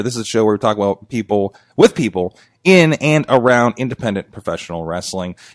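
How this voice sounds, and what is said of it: Raw, worn-out voice. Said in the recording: “my voice is very raw because it is coming off of a couple of days of some pretty crazy wrestling shows”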